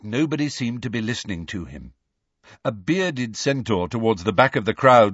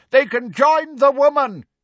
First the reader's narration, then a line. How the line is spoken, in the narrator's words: a dun-coloured centaur shouted